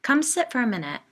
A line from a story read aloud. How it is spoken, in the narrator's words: I said